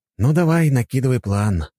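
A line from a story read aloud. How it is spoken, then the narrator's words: Sighing. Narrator (Russian): вздохнул я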